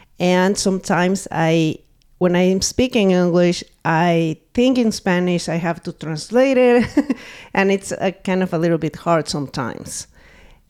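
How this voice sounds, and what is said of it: Strong Spanish accent in English. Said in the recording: “My accent is super strong.”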